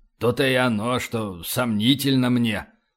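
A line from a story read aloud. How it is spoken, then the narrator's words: Grumble. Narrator (Russian): проворчал полубой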